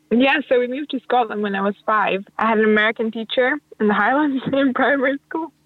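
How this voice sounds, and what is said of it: Mixed Hungarian, Scottish, American accent. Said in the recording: “my accent's from all over the place”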